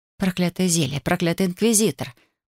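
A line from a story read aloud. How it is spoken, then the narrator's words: Muttered. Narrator (Russian): бормотала я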